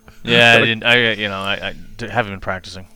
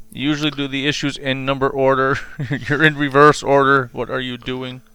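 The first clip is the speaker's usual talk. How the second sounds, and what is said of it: Robotic impression voice. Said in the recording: “that was your robot impression ... I thought you were having a stroke”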